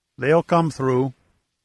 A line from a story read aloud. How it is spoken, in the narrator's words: offered Chaco in a hollow tone